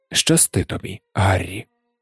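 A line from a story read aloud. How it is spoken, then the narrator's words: Quiet. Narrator (Ukrainian): тихо промовив він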